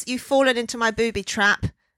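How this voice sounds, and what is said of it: Put-on Irish accent. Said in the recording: “Irish ... Irish accent”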